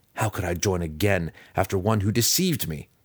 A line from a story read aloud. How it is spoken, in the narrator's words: he snarled